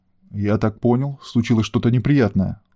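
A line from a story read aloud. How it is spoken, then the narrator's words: Forced calm. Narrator (Russian): стараясь говорить спокойно, спросил Северский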